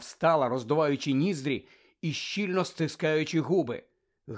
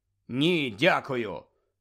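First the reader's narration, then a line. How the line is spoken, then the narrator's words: Cold refusal. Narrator (Ukrainian): холодно відмовився Гаррі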